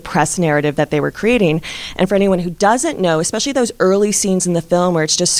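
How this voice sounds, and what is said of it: Usual voice. Nothing is said of it.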